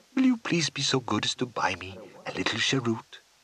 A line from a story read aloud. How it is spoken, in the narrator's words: Kepi is saying again in that small, unctuous voice